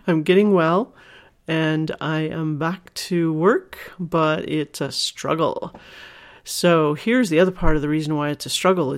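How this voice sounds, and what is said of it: Unusually deep voice. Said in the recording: “I came down with a bad cold, and it went into my lungs ... my voice is a little extra deep and perhaps extra sexy”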